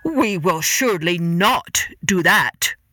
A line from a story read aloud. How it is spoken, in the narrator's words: roared the emperor